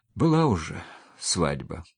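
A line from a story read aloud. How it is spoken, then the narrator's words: Sighing. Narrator (Russian): вздохнула Маша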